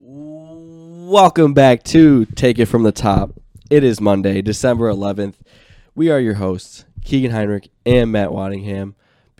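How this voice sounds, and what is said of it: Sick, congested voice. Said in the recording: “I sound sick, so, and I am sick ... It's just a little cold.”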